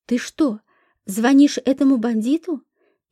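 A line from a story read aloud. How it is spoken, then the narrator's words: Frightened question. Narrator (Russian): испуганно спросила тетя Мила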